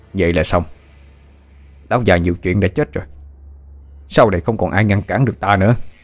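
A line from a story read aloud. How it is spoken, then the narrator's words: Stunned, gritted harsh voice. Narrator (Vietnamese): Tên Kiên hơi lùi ra sau, sững người một chút rồi gằn giọng nói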